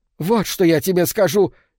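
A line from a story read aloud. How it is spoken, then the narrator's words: Old woman shouting. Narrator (Russian): крикнула старуха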